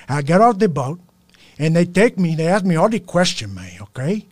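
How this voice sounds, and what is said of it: Scarface impression. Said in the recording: “Scarface was my favorite impression to do”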